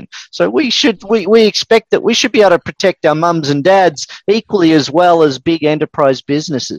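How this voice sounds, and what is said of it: Australian accent. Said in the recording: “I recognize the accent is Australian ... yes, it is Australian originally”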